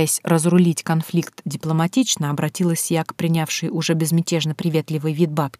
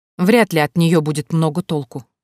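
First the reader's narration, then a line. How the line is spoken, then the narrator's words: Snorting, scornful woman. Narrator (Russian): фыркнула мадам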